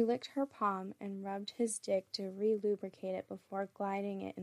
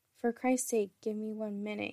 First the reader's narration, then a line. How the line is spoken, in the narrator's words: replied